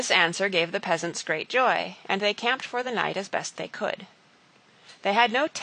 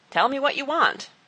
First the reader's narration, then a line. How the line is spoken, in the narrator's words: shouted